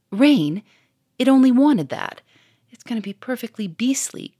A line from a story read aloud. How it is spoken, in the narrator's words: cried Germaine